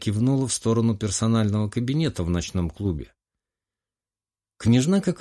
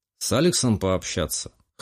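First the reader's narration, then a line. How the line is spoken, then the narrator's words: Young man's smirking snort. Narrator (Russian): хмыкнул молодой Романов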